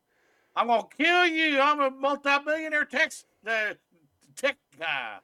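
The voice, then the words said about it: Imitated Southern American accent. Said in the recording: “who has a Southern accent too. ... Southern accent.”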